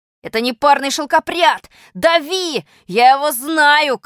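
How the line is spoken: Shouted. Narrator (Russian): крикнул один из них

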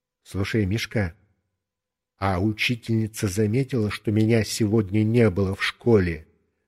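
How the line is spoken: Quiet question. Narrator (Russian): спросил я тихо

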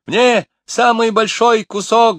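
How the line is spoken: Yelling. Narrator (Russian): завопила Нелли

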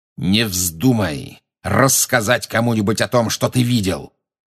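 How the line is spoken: Growling. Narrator (Russian): прорычал Снег

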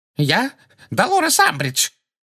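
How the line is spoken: Shrill terrified voice. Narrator (Russian): ответила Амбридж визгливым, насмерть перепуганным голосом

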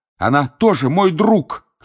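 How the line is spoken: Shouting. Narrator (Russian): кричал Гарри

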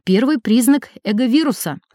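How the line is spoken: Plain. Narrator (Russian): сказал доктор

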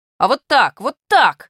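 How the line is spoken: Indignant shout. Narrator (Russian): возмущенно закричал я на Фокину

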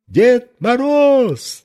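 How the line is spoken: Children shouting together. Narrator (Russian): дружно выкрикнули мы с Жорой и Мишкой Парфеновым

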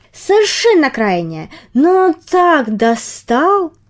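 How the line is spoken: Feigned weary moan. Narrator (Russian): простонал он, изображая усталость

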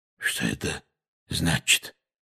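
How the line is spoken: Hoarse question. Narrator (Russian): хрипло спросил дядя Вернон

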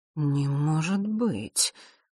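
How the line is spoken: Muttered. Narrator (Russian): пробормотала Черная Королева

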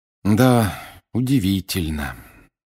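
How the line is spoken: Heavy sigh. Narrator (Russian): тяжело вздохнул Гарри

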